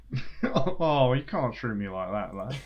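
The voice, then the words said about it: Poor imitation of another person's voice. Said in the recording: “that was a terrible Nigel Mansell impression.”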